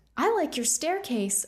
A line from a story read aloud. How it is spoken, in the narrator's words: Opal exclaimed